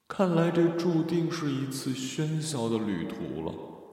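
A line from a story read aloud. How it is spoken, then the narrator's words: Inner long sigh. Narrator (Chinese): 他在内心仰天长叹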